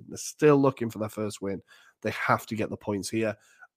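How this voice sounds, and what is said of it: Strained, worn-out voice. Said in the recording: “my voice is killing me.”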